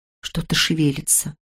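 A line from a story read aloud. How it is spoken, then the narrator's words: Barely audible whisper. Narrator (Russian): едва внятно прошептала она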